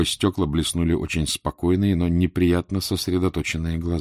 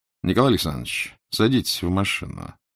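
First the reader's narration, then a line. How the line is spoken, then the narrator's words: Quiet. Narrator (Russian): сказал он негромко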